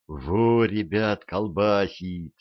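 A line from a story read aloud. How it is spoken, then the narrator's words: Envious sigh. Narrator (Russian): завистливо вздохнул кто-то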